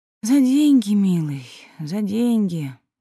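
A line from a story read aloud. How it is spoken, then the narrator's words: Sighing. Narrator (Russian): вздохнула Аглая Тихоновна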